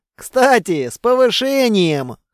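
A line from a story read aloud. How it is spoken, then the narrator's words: Wry snort. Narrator (Russian): хмыкнул Кейко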